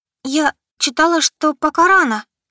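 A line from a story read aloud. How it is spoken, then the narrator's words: Squeaky. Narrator (Russian): пискнула она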